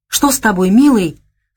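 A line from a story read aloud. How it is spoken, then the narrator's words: Alarmed exclamation. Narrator (Russian): встревоженно воскликнула Наташа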